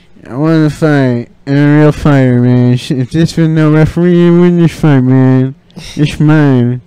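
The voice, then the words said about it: Mumbling imitation of another person's voice. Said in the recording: “my Nate Diaz impression ... That's how he sounds. He's like always mumbling.”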